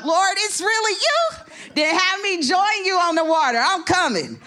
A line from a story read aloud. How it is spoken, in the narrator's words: Peter shouted out